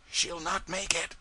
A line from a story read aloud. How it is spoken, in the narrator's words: somebody whispered